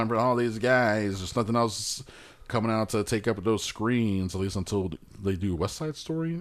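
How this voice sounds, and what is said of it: Usual voice. Nothing is said of it.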